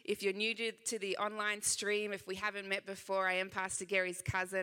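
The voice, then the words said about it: Slight Australian accent. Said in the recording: “I know I do have a little bit of an accent, just a little bit... I am from Sydney, Australia.”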